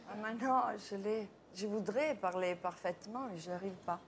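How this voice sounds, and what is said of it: Italian accent speaking French. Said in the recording (French): “c'est un accent que vous avez vraiment ou vous faites semblant ... Lilicube voyage en Italie en hommage à Monica Bellucci”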